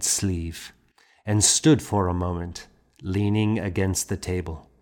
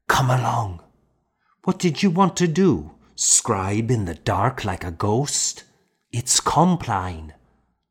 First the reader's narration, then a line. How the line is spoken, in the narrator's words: whispering